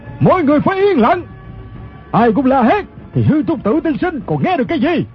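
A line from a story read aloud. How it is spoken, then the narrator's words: Commanding shout. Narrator (Vietnamese): Người quát lên chính là thủ lãnh quần hào Ô Lão Đại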